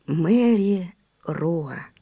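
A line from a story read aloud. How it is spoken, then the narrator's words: Soft and serious. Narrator (Russian): мягко и серьезно сказал он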